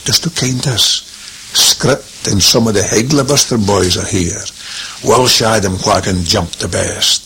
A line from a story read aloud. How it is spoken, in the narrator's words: lowering his voice